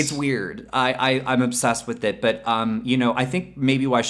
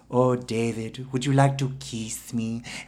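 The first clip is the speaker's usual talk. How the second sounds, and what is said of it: Audrey Hepburn mid-Atlantic accent impression. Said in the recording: “Audrey Hepburn ... she's from Europe, but she has this sort of like cute little accent and then she also has that 1950s dialect ... these weird sort of strange way of speaking ... It's like a mid-Atlantic accent.”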